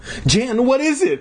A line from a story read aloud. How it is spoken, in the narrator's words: I cried